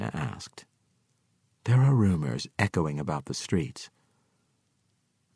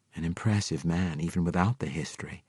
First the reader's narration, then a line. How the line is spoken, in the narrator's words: Belinda purred